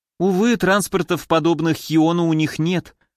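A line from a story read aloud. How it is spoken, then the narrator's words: Sighing. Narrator (Russian): вздохнул Адамас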